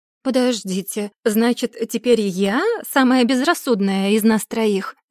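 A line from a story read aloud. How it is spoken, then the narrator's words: Laughing. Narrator (Russian): рассмеялась Эмили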